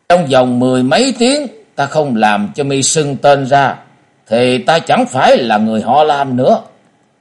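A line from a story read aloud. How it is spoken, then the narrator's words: Murderous tone. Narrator (Vietnamese): Ông ta lại tiếp bằng một giọng đầy sát khí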